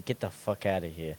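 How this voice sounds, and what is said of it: Put-on Italian accent. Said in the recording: “we're gonna say it in an Italian accent, like we're from fucking Italia, Italian.”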